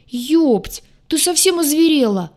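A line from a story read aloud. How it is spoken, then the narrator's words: Offended howl. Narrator (Russian): взвыл оскорбленный в лучших чувствах штурмовик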